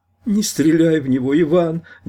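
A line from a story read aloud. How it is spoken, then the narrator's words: Trembling pleading voice. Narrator (Russian): дрожащим голоском попросила из угла Света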